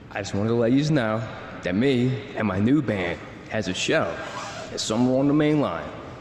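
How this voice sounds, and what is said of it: Philly accent. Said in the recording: “I love that Philly accent he's doing. It's a real treat.”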